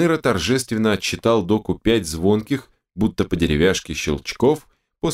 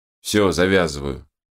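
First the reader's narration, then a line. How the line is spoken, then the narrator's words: Grumbled. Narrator (Russian): буркнул он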